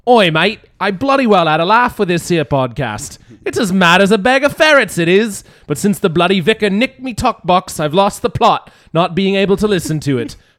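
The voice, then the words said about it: British accent. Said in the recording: “he's got a nice British accent”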